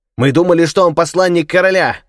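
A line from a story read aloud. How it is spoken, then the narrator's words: Shouted. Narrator (Russian): кричали они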